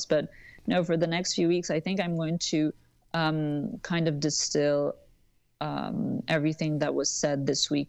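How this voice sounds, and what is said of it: Tired, sleepy late-night voice. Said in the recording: “late like bedroom voice”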